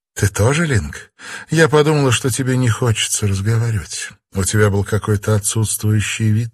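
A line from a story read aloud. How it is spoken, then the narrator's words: Uncertain, smiling. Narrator (Russian): неуверенно улыбнулась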